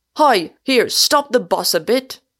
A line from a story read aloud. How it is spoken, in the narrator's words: cried Mr